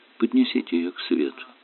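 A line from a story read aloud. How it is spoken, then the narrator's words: Calm advice. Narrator (Russian): спокойно посоветовал Магаон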